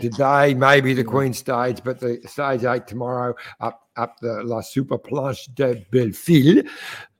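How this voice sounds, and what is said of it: Australian accent pronouncing French. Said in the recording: “How's my French going there ... With the Aussie accent”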